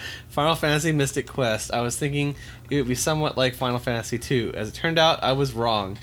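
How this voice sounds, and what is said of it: Usual voice. Nothing is said of it.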